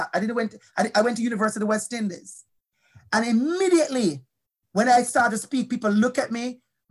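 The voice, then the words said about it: Strong Jamaican accent. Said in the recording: “My accent is strong, beautiful Jamaican accent.”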